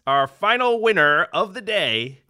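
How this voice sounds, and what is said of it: Game show host voice. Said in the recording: “my game show voice”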